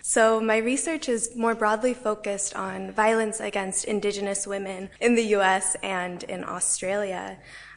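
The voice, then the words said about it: American accent. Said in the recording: “I live in the United States, hence the accent.”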